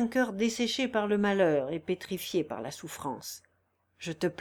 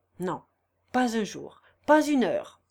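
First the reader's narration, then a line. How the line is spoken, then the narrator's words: Unyielding tone. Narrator (French): répondit-il d'un ton inflexible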